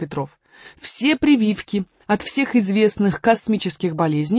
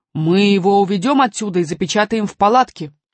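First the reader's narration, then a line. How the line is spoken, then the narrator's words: Growled. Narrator (Russian): зарычал Громозека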